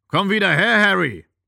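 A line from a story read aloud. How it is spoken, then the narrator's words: Bellowing worker. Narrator (German): brüllte ein zweiter Arbeiter von dem Baumstamm her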